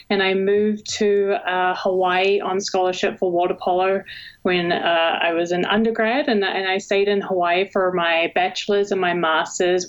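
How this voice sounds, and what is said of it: New Zealand accent. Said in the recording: “you can probably already hear an accent. I was actually born and raised in New Zealand”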